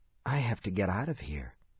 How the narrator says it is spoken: he whispered

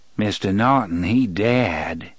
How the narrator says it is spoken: the man in black intoned sardonically

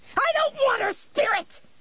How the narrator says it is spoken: She screamed

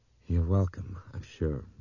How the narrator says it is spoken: Brian murmured

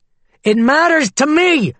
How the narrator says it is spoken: he shouted

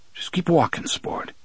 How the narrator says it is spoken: he said in an uneasy voice

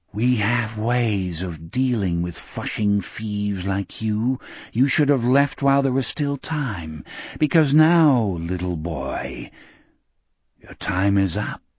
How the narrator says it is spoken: the walls of the hotel whispered dimly

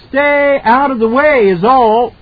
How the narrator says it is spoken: the driver shouted back

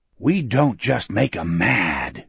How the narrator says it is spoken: Gardner said in a hoarse conspirator's whisper

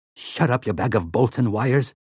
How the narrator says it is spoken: Sleitman snarled

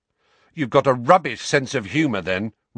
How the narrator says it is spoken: Ron snapped

